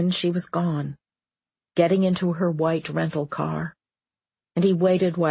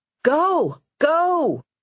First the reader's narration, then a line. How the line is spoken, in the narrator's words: she shouted